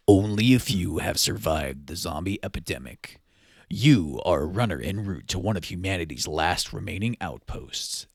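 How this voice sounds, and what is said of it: Dramatic movie trailer narrator voice. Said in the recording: “put on my movie trailer voice”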